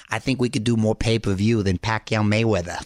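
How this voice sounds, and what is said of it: Boston accent impression. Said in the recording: “with his Boston accent”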